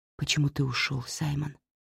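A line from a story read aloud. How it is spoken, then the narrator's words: Quiet question. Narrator (Russian): тихо спросила Кэтрин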